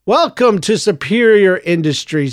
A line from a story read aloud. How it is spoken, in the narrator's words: shouted across the room, quite out of necessity